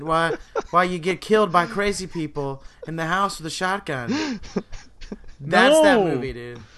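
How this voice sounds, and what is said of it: Put-on Boston accent. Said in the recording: “I'm going to tell you in my Boston accent ... I'm going to kill you with my Boston accent.”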